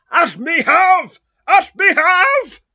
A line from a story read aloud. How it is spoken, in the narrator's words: shrieks Snowy, again baring his teeth